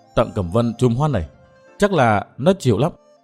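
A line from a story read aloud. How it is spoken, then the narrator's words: Smiling mutter. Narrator (Vietnamese): bóng đen mỉm cười lẩm bẩm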